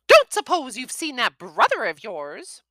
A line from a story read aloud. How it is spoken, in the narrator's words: snapped